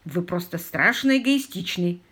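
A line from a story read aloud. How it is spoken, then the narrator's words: Grumbling. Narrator (Russian): проворчал мистер Паркер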